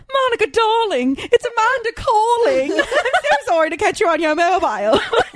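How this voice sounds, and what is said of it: Phony British accent. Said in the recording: “Came back with a super phony British accent”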